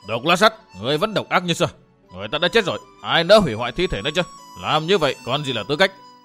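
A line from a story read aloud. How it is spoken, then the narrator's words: Loud shout. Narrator (Vietnamese): Lãnh Công Độ quát lớn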